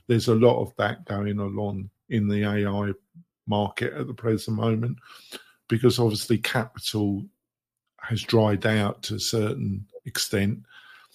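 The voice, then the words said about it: Strained, fading voice. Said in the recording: “losing my voice,”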